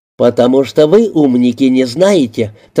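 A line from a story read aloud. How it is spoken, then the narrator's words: Triumphant tone. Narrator (Russian): торжествующим тоном произнес Купидон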